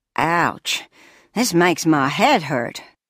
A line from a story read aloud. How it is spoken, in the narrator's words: groaned the caretaker